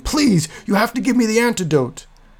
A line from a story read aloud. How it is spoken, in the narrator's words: Othrug coughed up more blood and wildly screamed